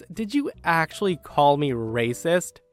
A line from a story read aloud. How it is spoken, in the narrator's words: laughs, and said the words